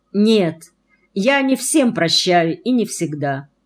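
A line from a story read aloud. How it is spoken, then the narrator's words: Calm. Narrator (Russian): спокойно сказал он, будто не замечая моего смущения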